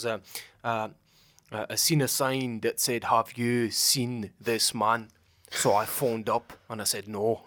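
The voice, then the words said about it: Put-on Glaswegian Scottish accent. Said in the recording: “that's how I learned to do Scottish accent ... That was a pretty good accent as well ... When I do the accent, bro, people are like, you sounded like Kevin Bridges ... Glaswegian accents”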